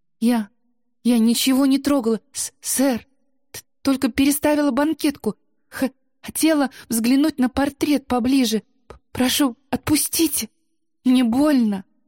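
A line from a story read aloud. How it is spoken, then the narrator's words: Strained, forced out. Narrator (Russian): Только и смогла выдавить из себя Ида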